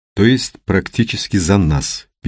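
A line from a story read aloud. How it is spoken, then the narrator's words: Sad. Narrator (Russian): печально сказал Мухин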